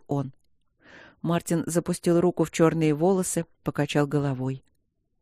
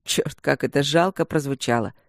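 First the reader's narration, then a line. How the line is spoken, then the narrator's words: Joyless chuckle. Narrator (Russian): Хохотнул он невесело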